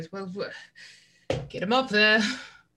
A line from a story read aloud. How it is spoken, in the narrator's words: nervously goes